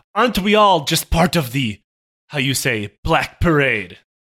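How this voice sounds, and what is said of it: Put-on French accent. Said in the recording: “he became French right there”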